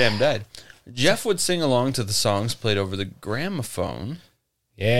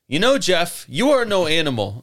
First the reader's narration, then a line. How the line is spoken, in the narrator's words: Margaret yelled